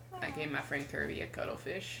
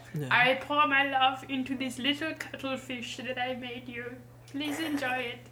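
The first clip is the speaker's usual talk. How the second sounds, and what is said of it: Silly put-on voice. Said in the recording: “That was a good impression you did of yourself ... I have to do a silly voice”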